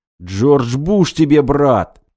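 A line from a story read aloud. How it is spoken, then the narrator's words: Yelling. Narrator (Russian): заорал Костя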